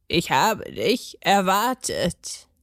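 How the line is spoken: Croaked. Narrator (German): krächzte

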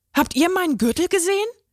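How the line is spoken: Excited question. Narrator (German): fragte aufgeregt

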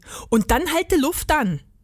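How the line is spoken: Called out. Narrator (German): rief Rudi

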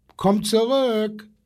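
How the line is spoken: Little zookeeper calling. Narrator (German): ruft der kleine Zoowärter

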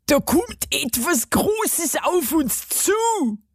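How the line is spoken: Dwarf, pained voice. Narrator (German): sagte der Zwerg mit gequälter Stimme

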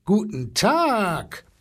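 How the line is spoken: Booming elephant. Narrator (German): polterte der Elefant

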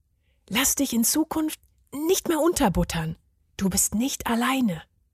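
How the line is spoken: Whispered. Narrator (German): flüsterte er ihm zu

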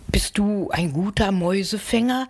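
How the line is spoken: Pleased purring cat asking. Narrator (German): die Katze schnurrte erfreut und fragte

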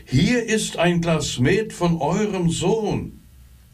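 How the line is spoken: Innkeeper shouting at full volume. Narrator (German): rief der Wirt so laut er konnte

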